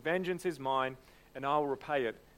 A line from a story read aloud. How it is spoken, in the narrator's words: says the Lord